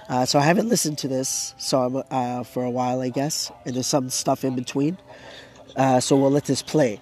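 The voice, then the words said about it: Hoarse, strained voice. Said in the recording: “I'm losing my voice. My throat is hurting”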